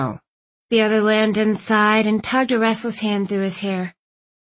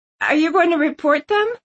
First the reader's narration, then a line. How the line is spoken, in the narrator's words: Bay asked, her voice cracking